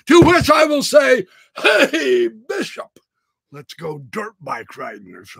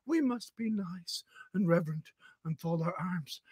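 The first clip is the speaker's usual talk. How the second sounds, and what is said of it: Soft, quiet voice. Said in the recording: “I'm talking in a soft voice”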